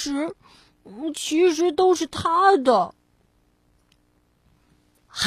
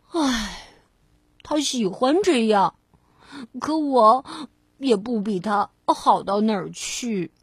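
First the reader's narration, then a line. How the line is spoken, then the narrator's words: Sighing. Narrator (Chinese): 蹦蹦叹了口气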